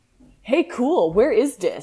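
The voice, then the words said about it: Emo-style character voice. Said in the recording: “in an emo voice.”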